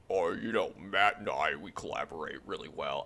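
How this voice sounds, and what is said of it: Imitates another person's voice. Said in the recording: “I'm gonna do my Ryan Pace voice. ... That sounds too much like Andrew Luck. I can't do it.”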